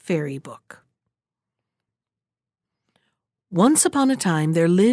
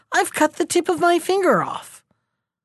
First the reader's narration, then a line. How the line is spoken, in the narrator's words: cried the king